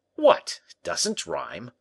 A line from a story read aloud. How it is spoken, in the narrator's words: cried La Fontaine in surprise